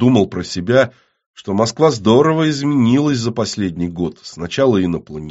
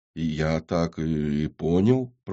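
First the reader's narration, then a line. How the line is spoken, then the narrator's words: Confused mumble. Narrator (Russian): пробормотал сбитый с толку Федор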